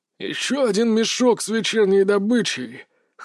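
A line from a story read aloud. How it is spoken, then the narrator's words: Rasping wheeze. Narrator (Russian): хрипел один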